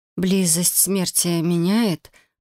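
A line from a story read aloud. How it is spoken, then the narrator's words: Hoarse, unsure. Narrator (Russian): прохрипел я не очень уверенно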